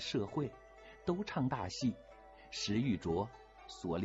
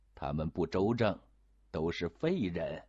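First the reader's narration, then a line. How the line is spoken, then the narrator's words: Laughing. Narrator (Chinese): 永琰精神也爽快起来，就笑道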